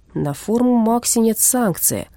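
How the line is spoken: Dull, gloomy voice. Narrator (Russian): унылым голосом напомнил лаборант

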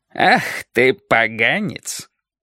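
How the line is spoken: Mock-menacing voice. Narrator (Russian): он заговорил нарочито грозным голосом

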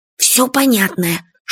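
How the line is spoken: Whispering. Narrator (Russian): шепотом сказал Фадейка

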